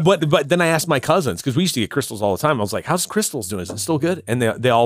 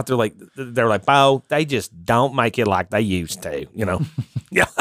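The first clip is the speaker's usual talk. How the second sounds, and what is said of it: Imitated Southern US accent. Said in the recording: “that was so spot on for a Southern accent”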